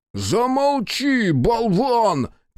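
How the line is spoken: Shout. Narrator (Russian): крикнул Соба

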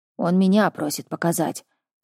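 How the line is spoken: Displeased snort. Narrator (Russian): как-то недовольно фыркнул Мур

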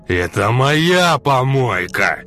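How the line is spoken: Tramp roaring again. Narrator (Russian): еще раз взревел бомж

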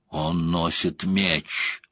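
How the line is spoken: Youngest woman muttering. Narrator (Russian): самая молодая пробормотала

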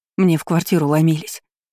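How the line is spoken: Trembling voice. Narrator (Russian): дрожащим голосом сказала Роза

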